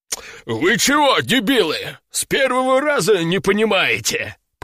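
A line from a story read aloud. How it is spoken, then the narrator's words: Growled. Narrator (Russian): прорычал он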